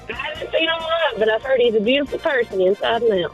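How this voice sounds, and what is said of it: Country accent. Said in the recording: “she got that country accent. I can hear it.”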